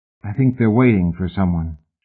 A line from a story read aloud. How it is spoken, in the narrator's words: she said quietly